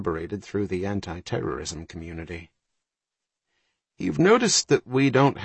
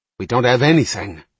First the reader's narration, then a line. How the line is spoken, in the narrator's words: Ryan snapped